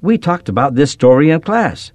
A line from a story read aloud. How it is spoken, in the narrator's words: Excitedly, Lauren exclaimed